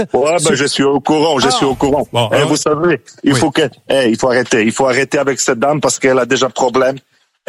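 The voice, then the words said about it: Slight Polish accent. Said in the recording (French): “Polonaise. ... c'est polonais, j'ai entendu un petit accent.”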